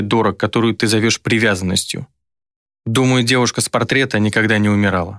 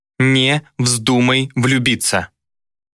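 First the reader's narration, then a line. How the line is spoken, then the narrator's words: Clipped, icy cold. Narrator (Russian): Отчеканила она, ее голос обжигал холодом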